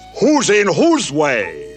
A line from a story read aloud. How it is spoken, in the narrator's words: snapped the south-going Zax